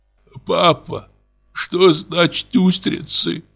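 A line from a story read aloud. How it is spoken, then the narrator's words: Hoarse question. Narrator (Russian): спрашиваю я хриплым голосом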